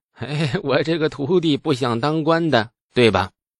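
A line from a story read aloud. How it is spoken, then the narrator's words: Forced dry chuckle. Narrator (Chinese): 李素呵呵干笑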